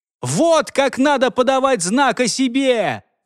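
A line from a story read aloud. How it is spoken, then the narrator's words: Shouting. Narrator (Russian): прокричал вперед Альфред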